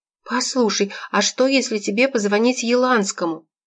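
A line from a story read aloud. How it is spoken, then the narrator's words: Exclamation. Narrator (Russian): воскликнула Анна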